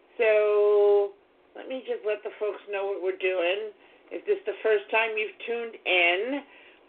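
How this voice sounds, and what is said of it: Strained, fading voice. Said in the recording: “losing my voice ... allergies”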